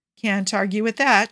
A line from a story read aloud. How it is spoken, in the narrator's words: Joe says